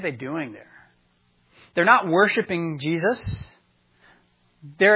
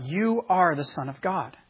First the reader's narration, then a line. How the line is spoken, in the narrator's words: they fell down before him, cried out